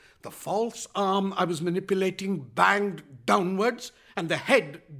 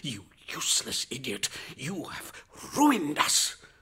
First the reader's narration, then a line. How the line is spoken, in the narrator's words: he hissed